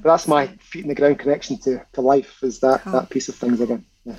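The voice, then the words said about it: Scottish accent. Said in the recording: “You've never lost your accent. You're Scottish, right?”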